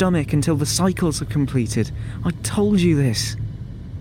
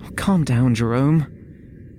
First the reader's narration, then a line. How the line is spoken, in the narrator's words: he pleaded